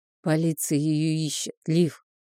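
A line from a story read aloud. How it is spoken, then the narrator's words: Quiet. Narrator (Russian): тихо проговорил он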